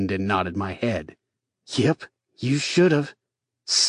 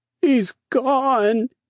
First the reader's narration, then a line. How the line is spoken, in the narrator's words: said Peter in between heaving sobs